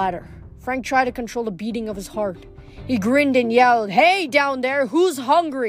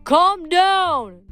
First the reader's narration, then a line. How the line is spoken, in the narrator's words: yelled